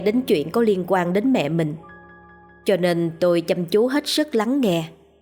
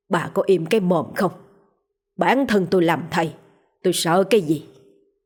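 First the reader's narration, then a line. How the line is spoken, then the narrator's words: Angry growl. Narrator (Vietnamese): Ông nội gằn giọng vẻ tức giận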